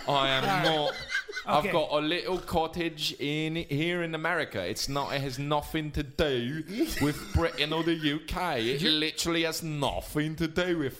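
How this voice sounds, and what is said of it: Put-on British accent. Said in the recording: “You're sounding even more British now than you were when ... You're getting crazy British right now.”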